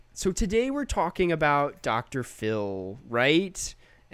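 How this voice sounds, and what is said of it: Imitates a YouTuber's voice. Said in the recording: “there's this YouTuber named Big Joel, and I do his voice really well ... And that's how he talks.”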